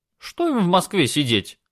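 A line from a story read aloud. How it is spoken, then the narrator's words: Cheerful question. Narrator (Russian): бодро спросила теща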